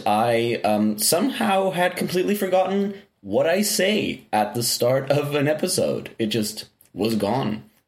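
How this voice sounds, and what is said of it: Slightly crackly, low-energy voice. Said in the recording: “a little more low energy than usual ... Your voice is a little crackly.”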